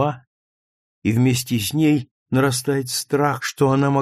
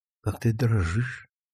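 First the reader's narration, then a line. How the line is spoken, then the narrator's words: Barely audible. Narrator (Russian): говорит чуть слышно Луиза Веслинг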